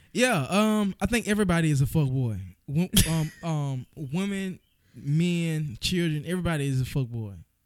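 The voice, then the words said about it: Strong Southern US accent. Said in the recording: “You have, like, the southernmost southern ... like a different accent ... Hella country”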